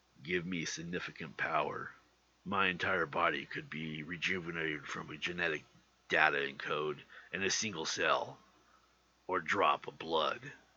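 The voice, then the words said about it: Imitates Wolverine's voice. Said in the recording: “my Wolverine impression”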